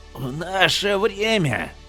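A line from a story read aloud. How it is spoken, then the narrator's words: Hoarse rasp. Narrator (Russian): прохрипел он наконец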